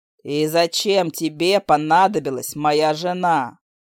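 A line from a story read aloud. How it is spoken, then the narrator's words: Growling undertone. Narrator (Russian): Хантер, а в голосе опять послышались рычащие нотки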